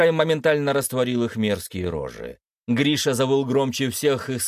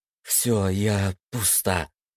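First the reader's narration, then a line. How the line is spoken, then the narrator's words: Breathless exhale. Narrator (Russian): выдохнула Даша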